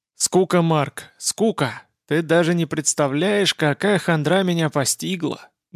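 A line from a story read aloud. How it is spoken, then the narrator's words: Sorrowful sighing. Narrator (Russian): горестно вздохнул друг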